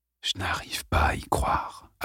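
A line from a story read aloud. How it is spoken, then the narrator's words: Father's soft murmur. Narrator (French): avait murmuré son père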